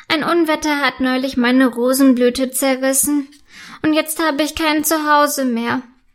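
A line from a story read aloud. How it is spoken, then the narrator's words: Sad telling. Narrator (German): erzählt traurig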